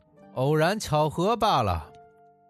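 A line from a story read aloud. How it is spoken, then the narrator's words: Sneering. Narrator (Chinese): 讲学家又讥笑说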